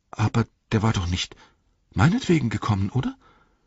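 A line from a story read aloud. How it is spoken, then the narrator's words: Stammer. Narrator (German): stammelte Pippin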